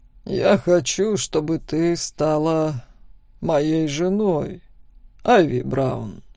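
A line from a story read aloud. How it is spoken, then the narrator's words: Calm. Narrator (Russian): спокойно произнес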